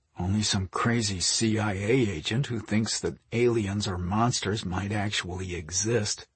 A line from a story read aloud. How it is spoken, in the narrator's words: Mike muttered